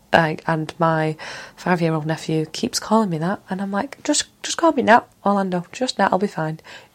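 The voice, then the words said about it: Mancunian English accent. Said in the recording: “in a proper Mancunian accent ... I am from Manchester”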